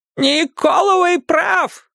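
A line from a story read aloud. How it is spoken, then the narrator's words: Yelling. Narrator (Russian): заорала она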